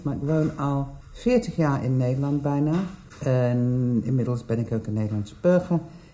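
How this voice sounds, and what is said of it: English accent speaking Dutch. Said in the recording (Dutch): “Ik ben Engels, dat hoor je waarschijnlijk uit mijn accent.”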